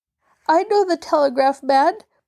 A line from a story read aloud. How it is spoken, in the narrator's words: wheezed Mabel